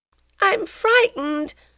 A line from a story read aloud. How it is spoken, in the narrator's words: cried the child